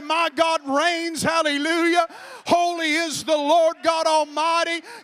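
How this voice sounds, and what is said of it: Loud, raised shouting voice. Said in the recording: “I'm going to shout and I'm going to raise my voice”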